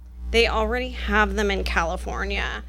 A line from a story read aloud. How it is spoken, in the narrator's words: grumbled